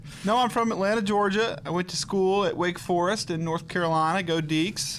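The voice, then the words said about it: Slight Southern twang. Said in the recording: “You got a little bit of a southern twang there”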